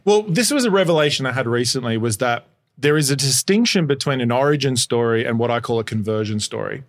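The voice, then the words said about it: Speaking with an accent. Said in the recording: “you just speak with an accent. Everything you say sounds better.”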